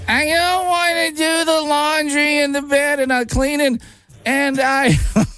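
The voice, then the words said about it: Impression of Fran Drescher. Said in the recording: “Does Terrible Impressions ... I have to try to do an impersonation of them ... the nanny, Fran Drescher”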